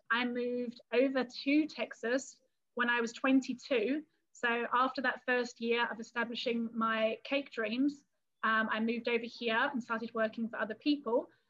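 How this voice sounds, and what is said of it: English London-area accent. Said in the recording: “as you can probably hear by the accent, I am originally from England and from the London area ... my accent has slightly diminished just a tiny bit by being in Texas”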